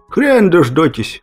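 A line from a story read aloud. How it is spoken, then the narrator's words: Failed laugh, dying croak. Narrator (Russian): Попытался хохотнуть я, но из груди вырвался лишь клёк от умирающей птицы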